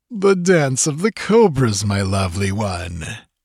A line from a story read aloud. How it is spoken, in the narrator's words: laughed Totrasmek